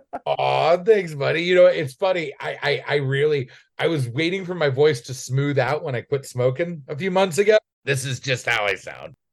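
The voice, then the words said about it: Raspy voice. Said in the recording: “The raspy rapscallion... that raspy tone”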